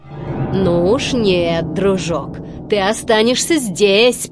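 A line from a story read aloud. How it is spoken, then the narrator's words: Growled. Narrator (Russian): прорычал Стромболи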